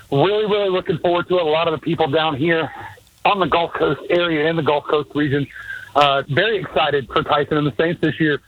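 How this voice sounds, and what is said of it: Out of breath, panting while talking. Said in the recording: “Why are you so out of breath? ... I'm actually out here moving these tee markers right now ... Running around doing coolers and water and everything”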